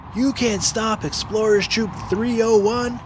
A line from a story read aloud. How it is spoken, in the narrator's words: yelled Finn